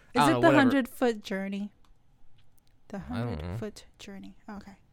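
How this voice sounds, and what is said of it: Usual voice. Nothing is said of it.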